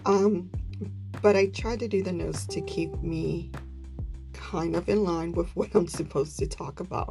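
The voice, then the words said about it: Sick voice wavering in pitch. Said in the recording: “apologize for my voice. ... I am still struggling with this cold or whatever this is. So my voice kind of goes in and out and then goes high pitch, low pitch.”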